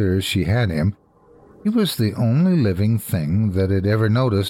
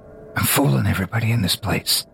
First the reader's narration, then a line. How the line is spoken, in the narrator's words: Drunkish whispers